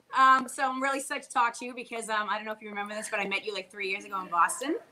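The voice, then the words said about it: Boston accent. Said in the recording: “I can definitely tell by the accent ... I'm a Boston girl”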